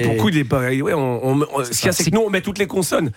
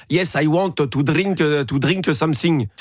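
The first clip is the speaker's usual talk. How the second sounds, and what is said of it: English with a flowing French accent. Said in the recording (French): “Ça, c'est un accent français... c'est un accent français coulant”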